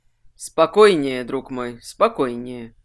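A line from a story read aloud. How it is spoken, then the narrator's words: Soft. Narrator (Russian): мягко сказал Варрик Легрун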